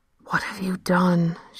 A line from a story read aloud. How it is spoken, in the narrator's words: whispered